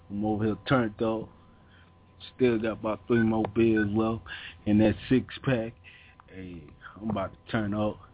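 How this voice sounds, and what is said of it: Hoarse, nearly lost voice. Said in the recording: “I almost lost my voice.”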